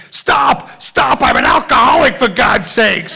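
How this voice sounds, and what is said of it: Screaming. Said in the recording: “I'm screaming,”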